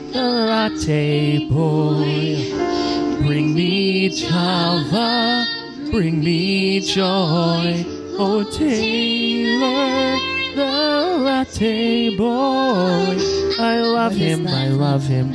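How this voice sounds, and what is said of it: Sung mediocre imitation of another person's voice. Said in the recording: “doing a mediocre Kristen Chenoweth impression”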